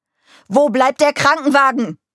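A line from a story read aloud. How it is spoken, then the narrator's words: Bellowing angrily. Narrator (German): brüllte er Mike an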